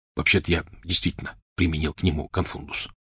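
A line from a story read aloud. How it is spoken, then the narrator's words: Whisper. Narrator (Russian): шепотом сказал Рон Гарри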